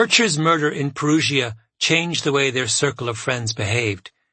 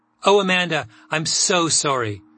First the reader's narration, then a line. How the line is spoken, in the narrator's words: Sophie exclaimed